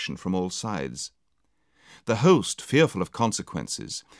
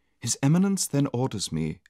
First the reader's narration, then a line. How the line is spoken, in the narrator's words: said the lady